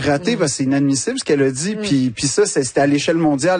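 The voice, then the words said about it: Québécois French accent. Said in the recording (French): “l'accent québécois”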